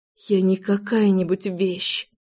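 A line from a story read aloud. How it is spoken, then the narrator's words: Whisper. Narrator (Russian): прошептала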